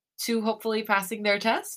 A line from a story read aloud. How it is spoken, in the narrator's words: I giggle nervously